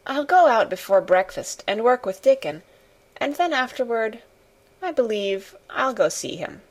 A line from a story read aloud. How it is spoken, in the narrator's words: she murmured to herself